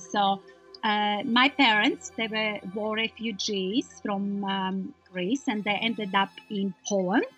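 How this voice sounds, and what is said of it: Foreign accent in English. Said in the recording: “I still have the accent, so people ask me where I come from”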